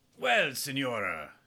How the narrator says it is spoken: chuckled

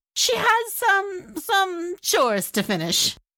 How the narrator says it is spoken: Lala Shaima stammered

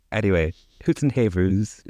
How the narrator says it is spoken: answered his wife, laughing, pretending to be amused

